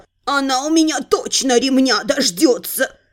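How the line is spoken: Dejected mutter. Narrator (Russian): Сокрушенно пробормотал Абрахас

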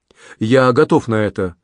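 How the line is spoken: Fervent exclamation. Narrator (Russian): с жаром воскликнул Анри

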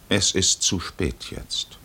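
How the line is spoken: Calm stranger. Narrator (German): Der Fremde sagte ruhig

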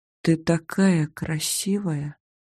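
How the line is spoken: Whisper. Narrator (Russian): прошептал

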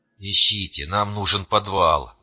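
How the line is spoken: Wheezing, struggling for breath. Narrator (Russian): прохрипел я, с трудом выдыхая стремительно густеющий воздух

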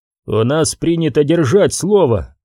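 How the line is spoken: Plain. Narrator (Russian): сказал Лемон

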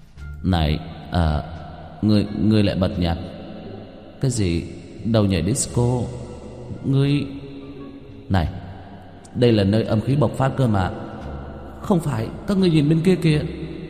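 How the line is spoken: Ghost stammering in shock. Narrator (Vietnamese): Một con quỷ trợn mắt, miệng lắp bắp

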